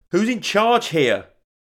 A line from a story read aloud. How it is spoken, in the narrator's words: called out